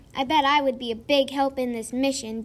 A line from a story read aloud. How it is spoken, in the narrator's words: Danny yelled